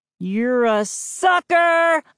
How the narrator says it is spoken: I exclaimed, and burst out laughing

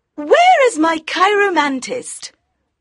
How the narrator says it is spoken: in her high voice asked

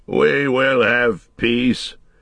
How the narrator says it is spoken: said Theoden at last, thickly and with an effort

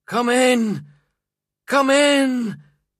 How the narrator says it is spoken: he cried, tears rolling down his face

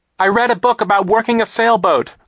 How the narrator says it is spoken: Klaus shouted over the noise of the hurricane

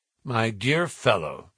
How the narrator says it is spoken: said he

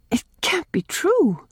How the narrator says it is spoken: gasped Nan, taking a brief refuge in temporary incredulity

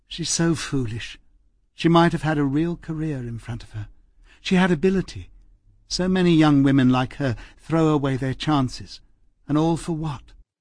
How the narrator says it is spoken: she sighed tiredly and said

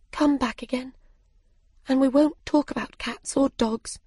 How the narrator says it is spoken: said softly

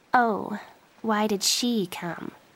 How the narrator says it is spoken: Joey asked quietly

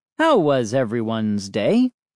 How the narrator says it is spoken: Dad asked cheerfully

